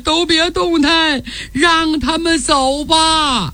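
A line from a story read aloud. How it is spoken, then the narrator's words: Tearful whimpering. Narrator (Chinese): 被按在马上的战满洲哭咧咧说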